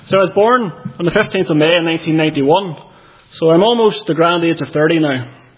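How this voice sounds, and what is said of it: Thick Northern Irish accent. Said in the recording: “I am from County Armagh. You maybe know that from the accent. I've been told I've quite a thick accent”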